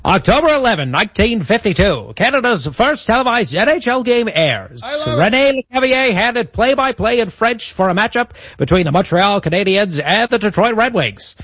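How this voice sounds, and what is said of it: Old-timey radio announcer voice. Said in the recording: “your old-timey radio voice ... the old-timey radio voice”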